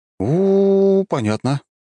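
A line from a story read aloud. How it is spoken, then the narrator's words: Drawn-out. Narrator (Russian): протянул я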